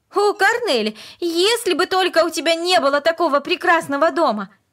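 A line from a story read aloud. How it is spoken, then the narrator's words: Sudden passionate exclamation. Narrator (Russian): Вдруг она страстно воскликнула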